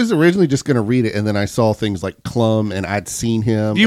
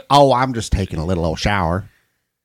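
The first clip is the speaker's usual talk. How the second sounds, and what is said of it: Mr. Garrison cartoon character voice. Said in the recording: “That was very close to Mr. Garrison.”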